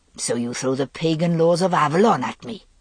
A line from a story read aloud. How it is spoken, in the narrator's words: Avaloch said, his voice a sneering growl